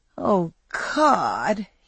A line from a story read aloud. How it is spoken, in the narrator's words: he moaned